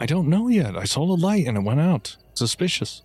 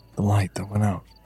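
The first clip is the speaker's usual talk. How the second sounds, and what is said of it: Whispering. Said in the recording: “I'll very quietly say... Why are you whispering?”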